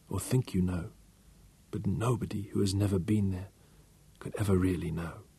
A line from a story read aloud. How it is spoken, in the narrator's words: she whispered